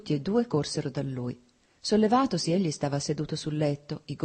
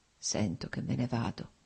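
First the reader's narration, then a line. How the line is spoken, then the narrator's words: Slow, labored, precise murmur. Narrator (Italian): mormorò Nicolai, articolando lentamente le parole, con fatica ma con straordinaria precisione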